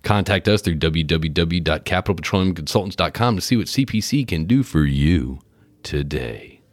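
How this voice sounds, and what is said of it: Movie trailer announcer voice. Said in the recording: “podcast voice ... It's podcast voice ... it's that movie preview announcer voice”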